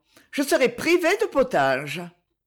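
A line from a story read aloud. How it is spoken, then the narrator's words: Said laughing. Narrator (French): dit-elle en riant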